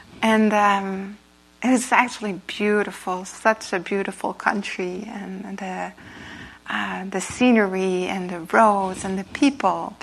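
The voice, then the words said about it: Non-native English accent. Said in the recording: “sorry, my accent sometimes”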